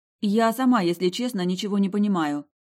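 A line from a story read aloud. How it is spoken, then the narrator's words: Plain. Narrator (Russian): ответила ей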